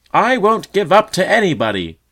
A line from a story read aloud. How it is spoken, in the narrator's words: shouted all